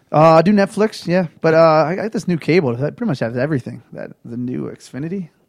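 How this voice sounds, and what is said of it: Baltimore accent. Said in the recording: “All I remember was picking up your accent. ... oh, he's from Baltimore.”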